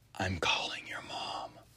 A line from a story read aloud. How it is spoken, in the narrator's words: I just whispered